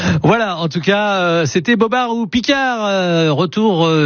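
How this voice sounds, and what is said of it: Usual voice. Nothing is said of it.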